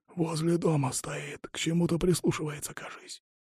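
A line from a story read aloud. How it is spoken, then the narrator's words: Whispered. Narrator (Russian): прошептал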